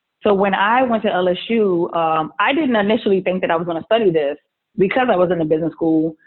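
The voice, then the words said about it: Southern US accent. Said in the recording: “I'm a Southerner. That's where the accent comes from. I'm from New Orleans.”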